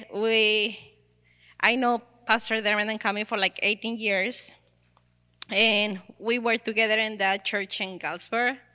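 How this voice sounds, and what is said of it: Mexican accent. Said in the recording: “I know my accent. I'm from Mexico.”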